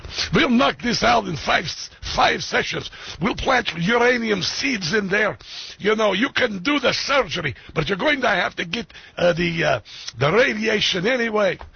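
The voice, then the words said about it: Exaggerated thick Russian accent. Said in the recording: “His accent isn't as thick as I do it. I'm just doing it for, you know, theatrical effect.”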